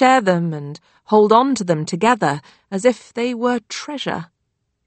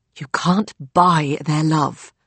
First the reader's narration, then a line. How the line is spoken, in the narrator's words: Nancy hissed